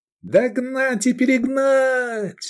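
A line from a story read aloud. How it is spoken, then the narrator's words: Yelled. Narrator (Russian): заорал Эдик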